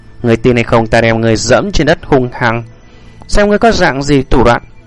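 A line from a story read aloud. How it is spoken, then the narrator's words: Cold voice. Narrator (Vietnamese): Lý Thất Dạ ... lạnh lùng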